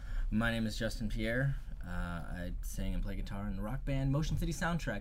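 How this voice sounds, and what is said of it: Smooth radio announcer voice. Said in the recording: “I like your radio voice, kind of.”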